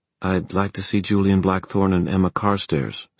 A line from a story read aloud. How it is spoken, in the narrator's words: said Diana, keeping her voice as neutral as possible